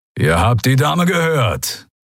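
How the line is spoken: Growling. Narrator (German): knurrte Keru

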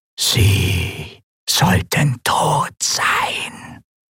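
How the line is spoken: Disembodied whisper. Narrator (German): flüsterte die körperlose Stimme

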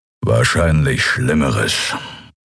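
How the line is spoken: Growling. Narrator (German): knurrte Keru

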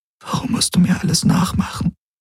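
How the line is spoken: Whispered. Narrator (German): flüsterte sie

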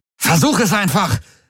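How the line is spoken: Barked command. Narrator (German): bellte

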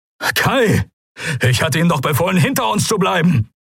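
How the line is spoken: Shouted. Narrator (German): rief Telios

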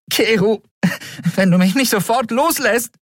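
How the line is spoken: Calling out. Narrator (German): rief Endriel

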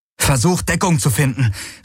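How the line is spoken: Calling. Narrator (German): rief Galen

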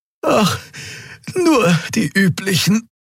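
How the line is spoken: Panting. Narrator (German): keuchte die Draxyl

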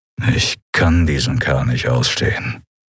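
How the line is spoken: Growled. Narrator (German): knurrte Telios

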